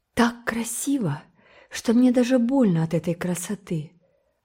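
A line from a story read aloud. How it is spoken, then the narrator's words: Soft reply. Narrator (Russian): отозвалась Энн мягко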